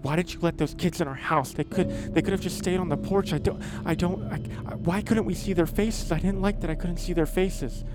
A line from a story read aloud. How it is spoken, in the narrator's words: starts on him frantically